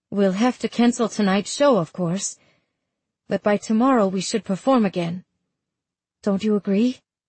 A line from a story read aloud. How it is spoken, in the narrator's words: I hear a note of pleading in my voice, wanting her to take charge as she always has